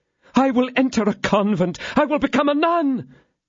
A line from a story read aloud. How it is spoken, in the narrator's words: cried her ladyship